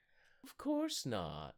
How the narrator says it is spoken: Travis drawls

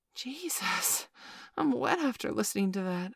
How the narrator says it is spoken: gasped

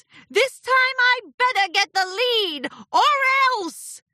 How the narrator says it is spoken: He shouted

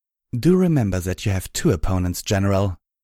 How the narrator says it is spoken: Black Rose called out

